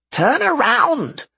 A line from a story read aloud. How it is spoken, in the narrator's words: shouted Nerd